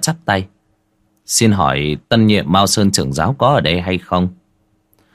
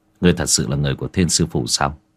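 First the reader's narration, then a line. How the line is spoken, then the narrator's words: Thoughtful, lowered voice. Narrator (Vietnamese): Bạch Tử Cống trầm tư rồi hạ giọng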